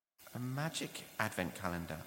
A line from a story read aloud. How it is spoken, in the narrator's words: answered Joachim